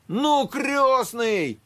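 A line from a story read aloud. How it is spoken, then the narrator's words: Shouting. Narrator (Russian): кричал он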